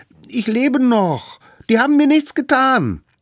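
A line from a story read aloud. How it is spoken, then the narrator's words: Shouted as loud as possible. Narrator (German): Das kleine Mammut rief so laut es konnte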